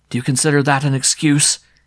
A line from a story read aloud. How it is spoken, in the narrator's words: He said fiercely